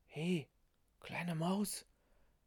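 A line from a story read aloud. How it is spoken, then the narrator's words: Beggar's husky whisper. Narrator (German): flüsterte der Bettler mit belegter Stimme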